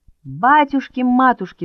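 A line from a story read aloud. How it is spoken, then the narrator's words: Sudden shout. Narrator (Russian): закричал вдруг Мишка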